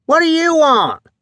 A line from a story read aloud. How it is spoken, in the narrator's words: Mac screamed over the roar of the motor